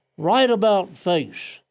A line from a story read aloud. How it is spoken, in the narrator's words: The 69-year-old veteran of two wars took his place on the parade ground and called out